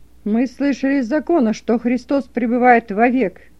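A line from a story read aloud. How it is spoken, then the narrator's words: Rude interruption. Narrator (Russian): грубо перебил его раввин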